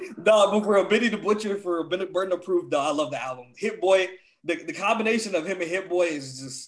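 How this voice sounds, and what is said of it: Usual voice. Nothing is said of it.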